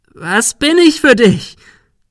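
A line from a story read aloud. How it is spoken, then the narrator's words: Shrieking. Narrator (German): Sarah kreischte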